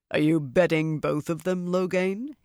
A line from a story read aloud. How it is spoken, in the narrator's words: he said in a deep voice